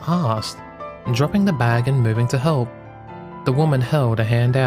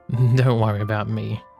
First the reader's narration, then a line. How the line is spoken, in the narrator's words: she chuckled